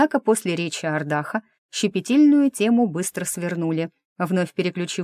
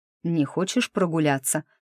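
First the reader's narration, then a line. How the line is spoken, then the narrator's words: Quiet question. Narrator (Russian): спросил тихо Ансгар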